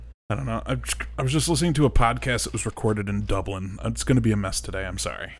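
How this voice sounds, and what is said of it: Usual voice. Nothing is said of it.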